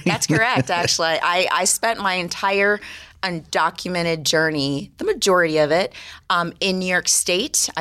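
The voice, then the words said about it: East Coast American accent. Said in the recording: “you sound like you've got an East Coast accent. I'm going to say D.C. or New York”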